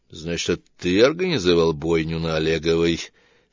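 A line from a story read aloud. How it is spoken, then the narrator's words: Through gritted teeth. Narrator (Russian): сквозь зубы проговорила Лана с переднего сиденья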